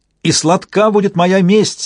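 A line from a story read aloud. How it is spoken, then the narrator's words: Shouting at full voice. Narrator (Russian): вновь крикнул он во весь голос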